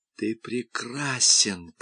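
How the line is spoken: Whispering. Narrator (Russian): прошептала она

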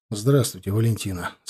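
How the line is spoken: Sighing. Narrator (Russian): сказал я, вздохнув

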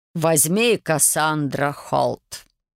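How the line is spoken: Solemn pronouncement. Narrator (Russian): торжественно проговорил принц

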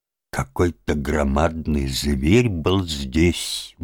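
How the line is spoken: Puzzled mutter. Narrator (Russian): бормотал он недоуменно

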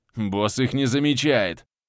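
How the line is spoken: Muttering. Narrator (Russian): Пробурчал Бьорк

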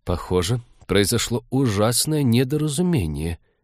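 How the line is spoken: Muttered. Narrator (Russian): пробормотал он

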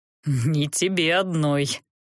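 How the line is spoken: Unsympathetic snort. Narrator (Russian): хмыкнул колдун, без особого сочувствия

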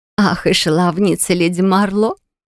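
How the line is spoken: Giggling. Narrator (Russian): хихикнула Элоиза

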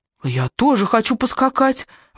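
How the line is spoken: Exclaimed. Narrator (Russian): воскликнула Кэрри

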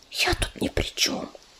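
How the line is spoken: Whisper. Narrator (Russian): прошептала Рыжинка

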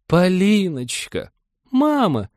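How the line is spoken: Stifled squeak. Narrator (Russian): Придушенно пискнула поглощенная стихией Полина

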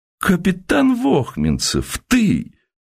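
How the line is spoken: Amazed exclamation. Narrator (Russian): налитым изумлением голосом воскликнул Уваров

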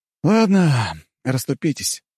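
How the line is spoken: Sighing. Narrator (Russian): вздохнул я

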